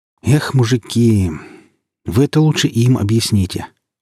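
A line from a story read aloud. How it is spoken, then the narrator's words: Sighing. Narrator (Russian): вздохнул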